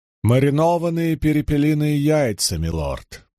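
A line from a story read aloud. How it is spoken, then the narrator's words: Funereal proclamation. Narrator (Russian): провозглашал он заупокойным тоном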